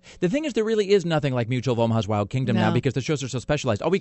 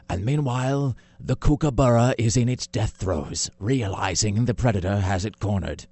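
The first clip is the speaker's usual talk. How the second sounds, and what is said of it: Mangled nature documentary narrator impression. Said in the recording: “I'm mangling the accent because I'm trying to do him and the Man versus Wild guy at the same time ... It sounded European.”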